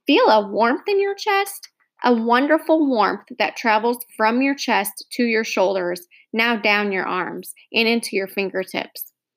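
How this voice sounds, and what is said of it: Soothing voice. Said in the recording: “in a soothing voice”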